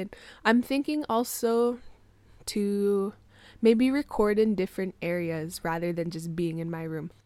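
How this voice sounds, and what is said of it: Congested, groggy morning voice. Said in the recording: “my voice sounds a little bit better. This is my morning voice ... I took my allergy medication, that's why my voice sounds like this. Like my nose was running away this morning”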